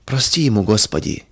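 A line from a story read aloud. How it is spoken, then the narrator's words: Soft, dismayed whisper. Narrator (Russian): тихо шептала Федора, удивляясь грубости и черствости мужа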